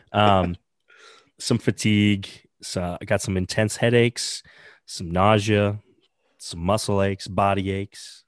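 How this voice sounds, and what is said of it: Hoarse, strained sick voice. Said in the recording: “been a little under the weather ... losing my voice ... had some throat problems”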